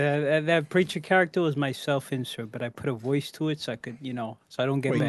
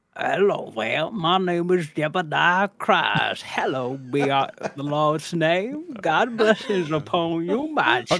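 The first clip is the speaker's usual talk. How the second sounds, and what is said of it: Preacher character voice. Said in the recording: “can we get the preacher voice?”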